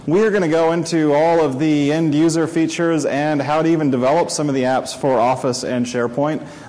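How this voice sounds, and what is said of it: American accent. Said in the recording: “tell from my voice and my funny accent, I do come from the United States”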